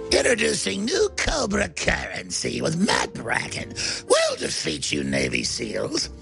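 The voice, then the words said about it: Cartoon villain character voice. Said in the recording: “You've got that voice nailed. ... perfect Cobra Commander voice”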